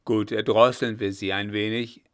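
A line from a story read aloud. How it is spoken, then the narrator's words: Called out. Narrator (German): rief Blücher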